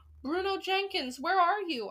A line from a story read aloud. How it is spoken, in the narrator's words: I called out